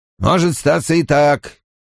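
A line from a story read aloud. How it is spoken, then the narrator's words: Unconvinced grumble. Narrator (Russian): пробурчал капитан, в голосе которого такого убеждения не слышалось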